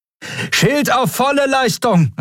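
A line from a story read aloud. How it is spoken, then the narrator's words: Call with alarmed horn toot. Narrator (German): rief, begleitet von einem alarmierten Tuten ihres Horns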